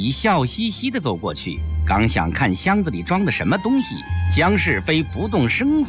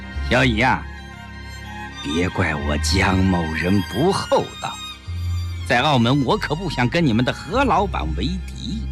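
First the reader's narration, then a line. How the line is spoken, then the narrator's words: Slow, half-smiling. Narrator (Chinese): 江世飞似笑非笑地缓缓地说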